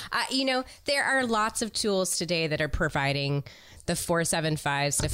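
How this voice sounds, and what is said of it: Usual voice. Nothing is said of it.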